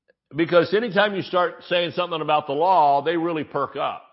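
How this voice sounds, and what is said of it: Usual voice. Nothing is said of it.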